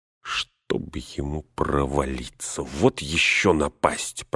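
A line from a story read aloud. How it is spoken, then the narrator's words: Grumbling. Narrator (Russian): проворчал он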